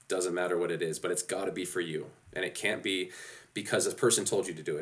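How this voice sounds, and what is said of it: Monotone, congested head-cold voice. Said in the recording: “my monotone half head cold voice”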